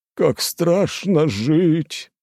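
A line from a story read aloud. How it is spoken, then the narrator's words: Mournful drawl. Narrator (Russian): горестно протянул Стрельцов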